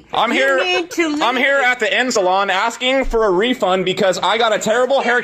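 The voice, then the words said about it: Canadian accent. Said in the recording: “You can hear it from his accent. He's very Canadian.”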